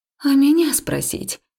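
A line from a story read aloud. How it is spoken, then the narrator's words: Slightly indignant exhale. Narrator (Russian): чуть возмущенно выдохнула я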